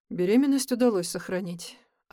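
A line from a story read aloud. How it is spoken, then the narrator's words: Sighing answer. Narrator (Russian): ответил врач и вздохнул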